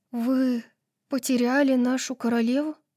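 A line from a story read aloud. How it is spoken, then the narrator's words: Dejected voice. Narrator (Russian): упавшим голосом спросила Сас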